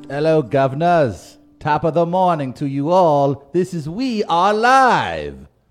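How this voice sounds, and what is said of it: Bad put-on British accent. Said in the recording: “I figured I'd try to come in this time with a bit of a British accent ... It's the worst accent. ... I've probably ever heard right behind Leo and Blood Diamond.”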